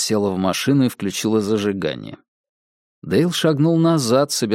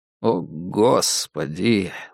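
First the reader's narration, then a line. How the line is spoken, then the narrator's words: Silent inner sigh. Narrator (Russian): мысленно вздохнул Дейл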